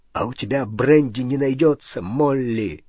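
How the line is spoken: Trembling voice. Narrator (Russian): спросил дрогнувшим голосом Хагрид

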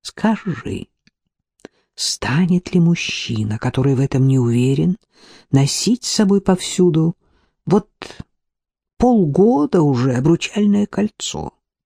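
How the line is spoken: Whispered in ear. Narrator (Russian): прошептал на ухо

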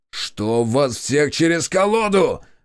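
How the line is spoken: Barked. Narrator (Russian): рявкнул Борис на стрелков

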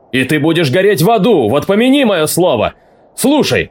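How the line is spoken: Shouted again. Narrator (Russian): крикнул опять

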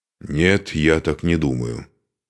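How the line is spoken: Gloomy. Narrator (Russian): мрачно сказал Духарев

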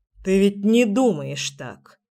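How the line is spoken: Grumbling. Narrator (Russian): проворчал Генрих

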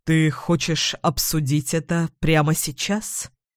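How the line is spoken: Muffled question. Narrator (Russian): глухо спрашивает он

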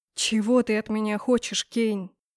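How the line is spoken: Tired question, master. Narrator (Russian): устало спросил магистр

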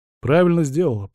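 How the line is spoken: Grumbling. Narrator (Russian): проворчал я

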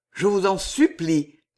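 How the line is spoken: Ardent, trembling plea. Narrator (French): continua-t-il d'une voix ardente et à la fois tremblante

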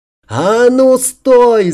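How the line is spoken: Shouted. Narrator (Russian): закричала

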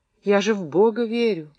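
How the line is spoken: Near moan. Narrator (Russian): почти простонала Варька

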